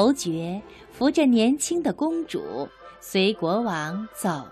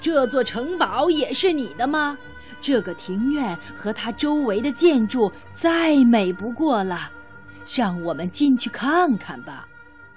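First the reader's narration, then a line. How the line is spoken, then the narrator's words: King exclaiming. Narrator (Chinese): 国王叫了起来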